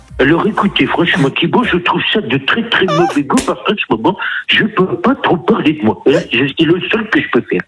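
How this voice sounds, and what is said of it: Sarkozy impression. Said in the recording (French): “est-ce que tu sais faire des politiques un peu ou pas? ... Ah, tu vois, Sarko, c'est le classique.”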